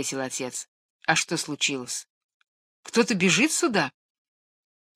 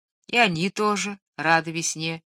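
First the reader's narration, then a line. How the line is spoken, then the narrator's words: Plain. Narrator (Russian): ответил отец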